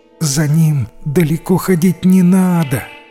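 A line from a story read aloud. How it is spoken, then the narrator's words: Moaning. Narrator (Russian): простонала жена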